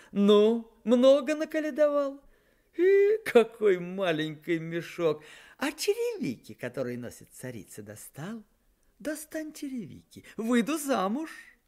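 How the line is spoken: Laughing. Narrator (Russian): засмеявшись

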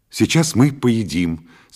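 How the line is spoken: Cheerful. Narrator (Russian): сказал я бодро

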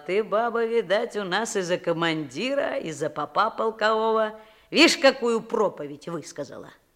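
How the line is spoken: Laughing, grey-haired man. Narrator (Russian): Седоватый мужик засмеялся, сказал

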